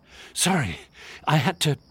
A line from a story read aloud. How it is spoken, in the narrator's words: Michael, panting